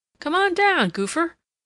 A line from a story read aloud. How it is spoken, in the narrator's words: cried Alec